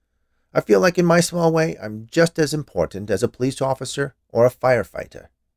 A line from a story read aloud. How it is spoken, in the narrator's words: he said, in a somewhat defensive tone